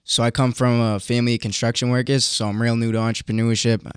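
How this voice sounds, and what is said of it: Boston accent. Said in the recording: “your Bostonian accent”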